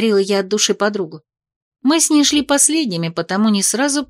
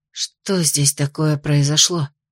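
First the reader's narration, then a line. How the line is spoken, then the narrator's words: Breathless exhale. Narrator (Russian): выдохнула более высокая северянка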